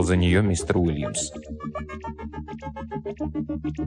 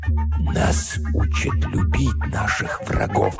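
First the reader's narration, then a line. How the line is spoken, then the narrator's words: Whisper. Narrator (Russian): прошептал мистер Уильямс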